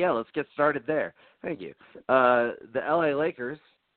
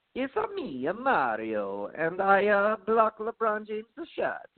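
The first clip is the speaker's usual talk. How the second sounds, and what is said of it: Super Mario cartoon character voice. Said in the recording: “best possible Super Mario impersonation.”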